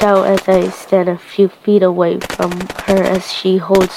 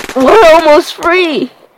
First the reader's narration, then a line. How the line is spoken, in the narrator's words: I shout and cry